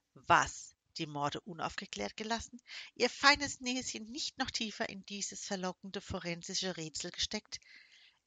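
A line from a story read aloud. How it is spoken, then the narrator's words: Laughing. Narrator (German): lachte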